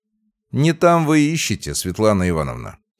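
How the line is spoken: Calm, play-acting. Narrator (Russian): спокойно произнес я, разыгрывая сценку

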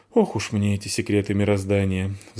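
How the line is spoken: Sigh. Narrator (Russian): вздохнула Фаль

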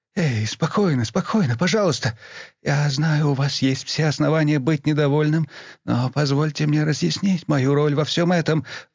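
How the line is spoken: Hoarse, pleading. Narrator (Russian): взмолился Бонхёффер, голос которого звучал так, словно он был сильно простужен

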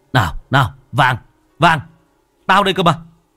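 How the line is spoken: Barked command. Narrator (Vietnamese): Anh Khiêm quát

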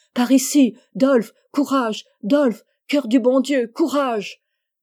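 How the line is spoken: Crowd yelling. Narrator (French): hurle encore la foule

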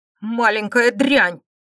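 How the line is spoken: Seething angry growl. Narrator (Russian): прорычал Галий с клокочущей злостью

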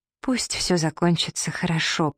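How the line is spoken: Whisper. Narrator (Russian): прошептала я

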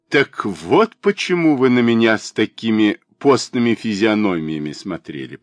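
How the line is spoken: Said while laughing. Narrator (Russian): проговорил, продолжая смеяться

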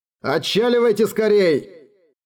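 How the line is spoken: Shout. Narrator (Russian): крикнул он

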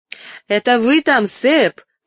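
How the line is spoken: Mother shouting. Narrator (Russian): кричала моя мать

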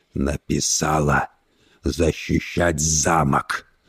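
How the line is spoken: Growl through clenched teeth. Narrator (Russian): прорычал он сквозь зубы

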